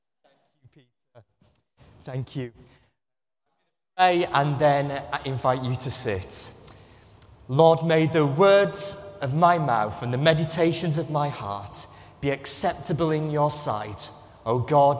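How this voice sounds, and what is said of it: Northern English accent. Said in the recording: “another Englishman ... This one is from the north, so I hope you'll understand his accent.”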